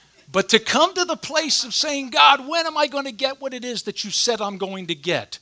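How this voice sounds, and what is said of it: Usual voice. Nothing is said of it.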